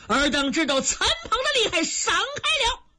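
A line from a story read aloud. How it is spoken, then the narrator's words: Loud shout. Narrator (Chinese): 陈鹏 高声喝喊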